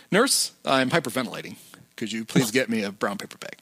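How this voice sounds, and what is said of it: Very calm voice. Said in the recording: “in a very calm voice”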